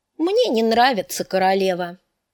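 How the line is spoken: Calm. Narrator (Russian): спокойно отвечала Ария

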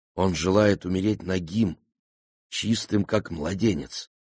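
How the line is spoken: Plain. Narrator (Russian): сказал Клевон

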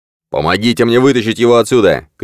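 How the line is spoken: Shouting. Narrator (Russian): крикнул Виктор

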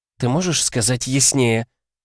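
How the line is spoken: Hissed. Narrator (Russian): зашипела Нежата

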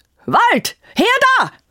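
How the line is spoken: Young man shouting. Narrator (German): schrie der erste Mann mit junger Stimme

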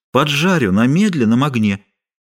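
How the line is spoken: Meek singsong voice. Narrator (Russian): своим напевным кротким голосом пообещал Арамис

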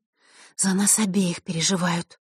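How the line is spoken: Quiet reply. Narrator (Russian): так же тихо ответила Василиса

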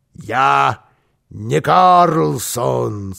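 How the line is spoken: Muffled voice. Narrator (Russian): сказал Карлсон глухим голосом

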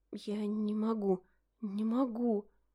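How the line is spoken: Whispered. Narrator (Russian): прошептала я

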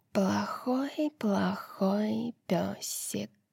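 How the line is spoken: Purring. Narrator (Russian): промурлыкала она

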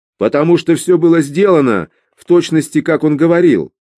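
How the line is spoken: Angry reply. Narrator (Russian): Уэллс сердито ответил

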